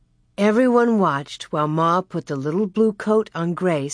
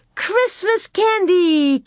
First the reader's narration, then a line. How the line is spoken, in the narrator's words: Carrie cried